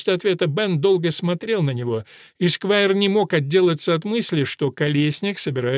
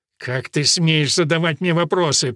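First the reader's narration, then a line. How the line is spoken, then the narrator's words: Through gritted teeth. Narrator (Russian): процедил он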